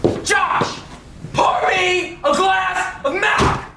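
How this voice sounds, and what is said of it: Yelling. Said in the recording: “Why are you yelling”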